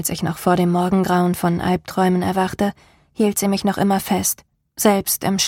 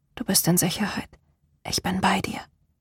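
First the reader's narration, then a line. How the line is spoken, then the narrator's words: Whisper. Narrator (German): flüsterte sie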